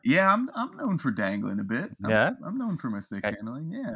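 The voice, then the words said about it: Irish accent. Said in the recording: “still sounding so Irish”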